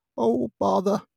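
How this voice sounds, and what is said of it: Cartoon bear character voice. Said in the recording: “that Pooh impression”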